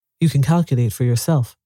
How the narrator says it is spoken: I said

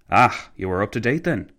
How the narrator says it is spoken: McCallville sighed

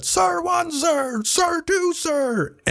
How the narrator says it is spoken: We all shouted at the top of our lungs as we counted

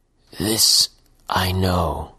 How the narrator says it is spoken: mumbled the man, making a great effort to speak as if he'd forgotten the skill

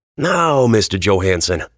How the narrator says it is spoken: Metzger said

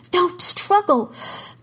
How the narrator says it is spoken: Kara gasped

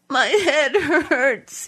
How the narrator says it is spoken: he said, sobbing

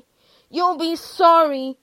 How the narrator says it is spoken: he shouted

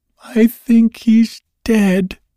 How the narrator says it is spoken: she sobbed

